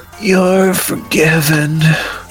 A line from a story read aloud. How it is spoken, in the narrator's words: she groaned